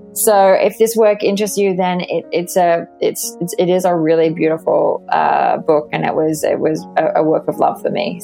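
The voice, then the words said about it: Australian accent. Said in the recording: “you will hear me with my Australian accent”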